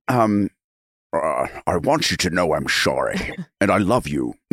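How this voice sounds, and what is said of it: Imitates another person's voice. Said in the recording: “that's my bad, Sean Connery”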